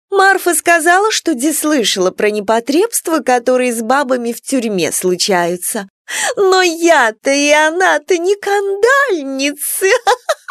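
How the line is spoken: Tinkling laugh. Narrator (Russian): Колокольчато рассмеялась Елена Григорьевна

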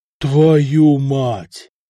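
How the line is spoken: Exhaled exclamation. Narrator (Russian): выдохнул Самослав

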